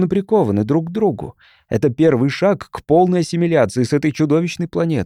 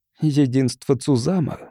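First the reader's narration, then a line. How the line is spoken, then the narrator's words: Muttering. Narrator (Russian): бормотала она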